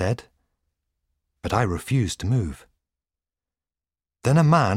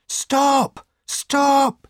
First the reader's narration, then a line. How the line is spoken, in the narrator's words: cried